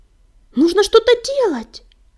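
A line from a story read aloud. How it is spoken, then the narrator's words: Fervent exclamation, man. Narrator (Russian): горячо воскликнул он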